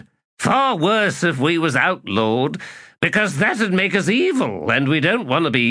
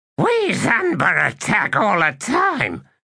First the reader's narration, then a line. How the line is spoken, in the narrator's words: snarled Pinnacell